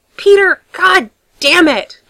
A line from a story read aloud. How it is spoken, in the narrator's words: snaps